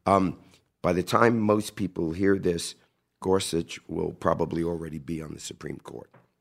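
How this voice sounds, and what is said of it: Hoarse voice. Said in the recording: “I apologize ahead of time for my hoarseness.”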